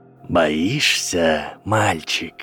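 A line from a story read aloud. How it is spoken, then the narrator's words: Snake-like hiss. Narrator (Russian): прошипел Волдеморт, словно даже в человеческой речи темного лорда оставалось что-то от Парсилтанга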